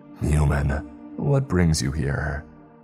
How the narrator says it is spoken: A raspy voice

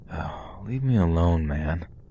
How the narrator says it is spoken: I call out sleepily

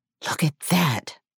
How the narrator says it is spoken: I whispered with all the indignation I could muster

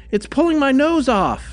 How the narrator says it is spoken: he yelled

